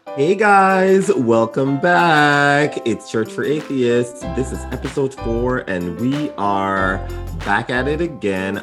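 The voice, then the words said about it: Low groggy morning voice. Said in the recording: “my voice is not quite awake yet ... you sound good for morning voice ... This is my sexy morning voice. I think it'll get higher as we go along.”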